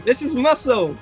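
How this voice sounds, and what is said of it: Slipping put-on accent. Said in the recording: “What's gone on with my accent?”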